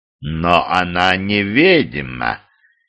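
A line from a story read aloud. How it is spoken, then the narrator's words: Low velvety warning. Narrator (Russian): низким бархатистым голоском корректно предупредил дух тьмы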